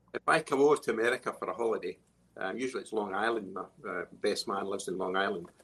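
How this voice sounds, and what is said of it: Scottish accent. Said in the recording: “this Scottish accent”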